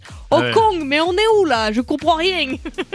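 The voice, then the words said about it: Put-on Marseille accent. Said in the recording (French): “le GPS avec l'accent marseillais”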